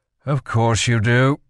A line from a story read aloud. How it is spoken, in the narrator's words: Kel sighed